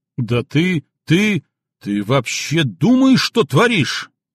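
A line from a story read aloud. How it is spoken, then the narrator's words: Roaring. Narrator (Russian): взревел гвардии майор Чалый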